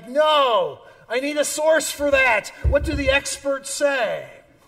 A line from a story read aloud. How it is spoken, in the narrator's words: some very upset character yelling something like